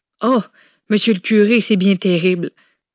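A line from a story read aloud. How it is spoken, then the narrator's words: Several people exclaiming. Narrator (French): s'exclamaient les uns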